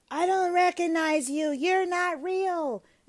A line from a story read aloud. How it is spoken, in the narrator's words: she's screaming